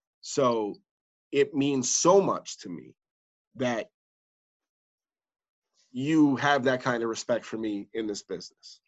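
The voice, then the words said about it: Emotional speaking voice. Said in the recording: “I'm going to get emotional. And here I am getting emotional.”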